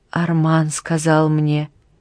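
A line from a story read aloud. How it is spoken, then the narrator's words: Whispered. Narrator (Russian): прошептала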